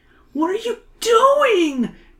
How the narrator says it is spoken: Emily gasps

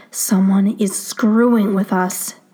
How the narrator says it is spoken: Scott growls

